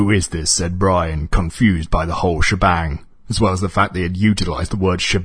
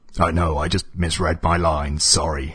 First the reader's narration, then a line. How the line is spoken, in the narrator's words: rasped the stranger